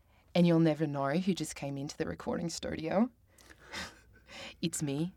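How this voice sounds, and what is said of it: Imperfect put-on New Zealand accent. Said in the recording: “I can do a New Zealand accent. ... It's not like a proper accent. It's like a little tipsy-turvy.”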